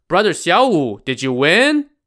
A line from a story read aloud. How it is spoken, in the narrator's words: Wu Yong shouted